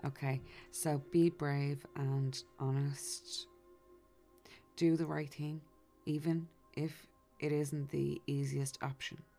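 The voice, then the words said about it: Speaks English with a noticeable accent. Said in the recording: “my accent kind of wrecks the English language sometimes”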